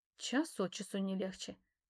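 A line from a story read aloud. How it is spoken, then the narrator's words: Muttering. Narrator (Russian): пробормотала я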